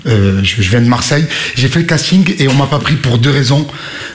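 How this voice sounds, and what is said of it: Marseille French accent. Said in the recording (French): “j'avais l'accent marseillais”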